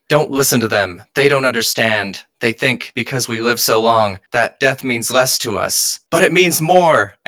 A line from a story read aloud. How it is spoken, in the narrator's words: you yell